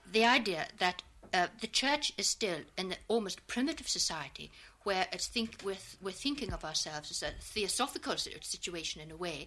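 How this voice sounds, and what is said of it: Donegal Irish accent. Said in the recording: “your accent isn't precisely of the south or of the deep south. ... it is Donegal”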